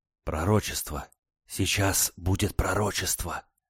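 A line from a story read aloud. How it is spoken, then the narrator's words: Excited crowd whispering. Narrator (Russian): послышалось возбужденное перешептывание публики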